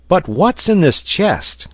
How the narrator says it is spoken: cried Pencroft, with very natural impatience

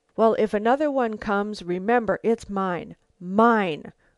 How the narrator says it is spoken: growled the man

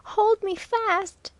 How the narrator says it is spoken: echoed Waldo, clinging desperately to the lifeline

